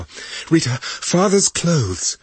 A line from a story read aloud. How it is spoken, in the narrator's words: Julie said breathlessly